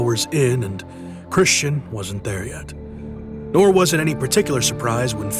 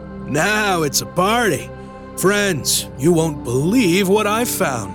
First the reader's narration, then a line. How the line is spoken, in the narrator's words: loudly declaring